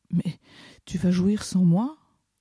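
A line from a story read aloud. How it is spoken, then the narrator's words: Panting. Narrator (French): Je haletais à présent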